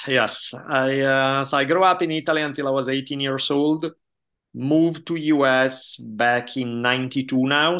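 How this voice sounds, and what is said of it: Italian accent. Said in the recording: “I grew up in Italy, as probably my accent gives away ... my accent never goes away”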